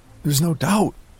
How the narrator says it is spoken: I blurted out

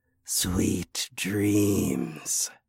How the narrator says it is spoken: I whispered

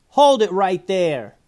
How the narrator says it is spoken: yelled Hot Sauce

